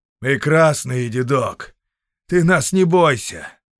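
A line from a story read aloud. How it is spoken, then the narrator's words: Peaceable wheezing chieftain. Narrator (Russian): миролюбиво просипел атаман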